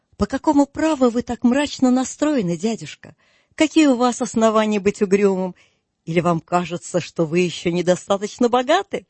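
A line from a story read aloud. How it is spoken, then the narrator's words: Cheerful. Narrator (Russian): весело отозвался племянник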